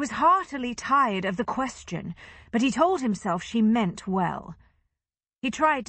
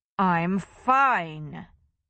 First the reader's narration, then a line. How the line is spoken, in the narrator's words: he said, lying through his teeth